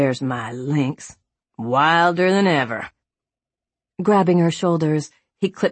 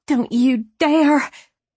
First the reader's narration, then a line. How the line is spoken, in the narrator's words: hissing